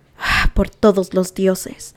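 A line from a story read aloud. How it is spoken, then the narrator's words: Mumbling. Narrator (Spanish): farfulló Talasin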